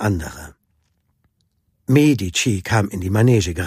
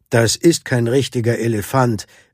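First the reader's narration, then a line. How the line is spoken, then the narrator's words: Called out from audience. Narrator (German): rief jemand aus dem Publikum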